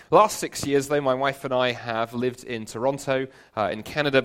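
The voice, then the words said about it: London English accent. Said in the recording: “I come originally from London. You may tell that by the accent.”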